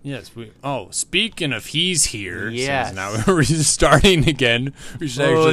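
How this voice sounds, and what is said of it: Usual voice. Nothing is said of it.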